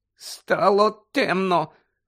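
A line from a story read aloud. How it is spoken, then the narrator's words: Hoarse voice. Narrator (Ukrainian): хрипко вимовив Дадлі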